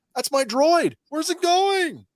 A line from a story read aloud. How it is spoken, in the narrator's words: Seeing her payday run down the street, Rafa yells